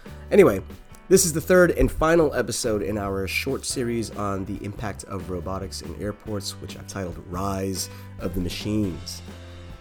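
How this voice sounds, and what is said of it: Slightly off, sick-sounding voice. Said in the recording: “I'm a little under the weather as I record this, so my voice is just a little off.”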